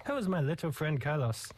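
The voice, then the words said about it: Deliberately bad Italian accent. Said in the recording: “I'm doing the really bad Italian accent”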